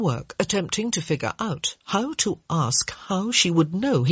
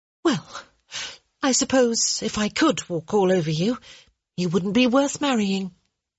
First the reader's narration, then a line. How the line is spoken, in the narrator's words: Hyacinth sighed, and said